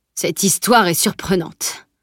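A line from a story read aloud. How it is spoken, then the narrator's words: Low grumble. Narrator (French): grogna-t-il à mi-voix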